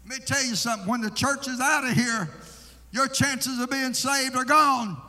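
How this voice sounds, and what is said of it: Screaming, hollering preacher. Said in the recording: “I'm screaming... I'm hollering”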